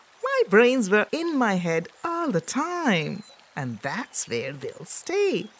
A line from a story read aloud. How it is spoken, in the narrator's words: called the mocking monkey voice